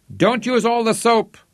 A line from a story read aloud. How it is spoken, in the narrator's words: he shouted gleefully